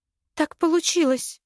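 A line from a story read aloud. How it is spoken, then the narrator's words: Timid babbling. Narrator (Russian): пролепетала я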